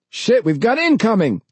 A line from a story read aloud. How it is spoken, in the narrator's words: the pilot shouted